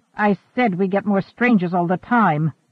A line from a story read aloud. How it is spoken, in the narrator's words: Dushan snapped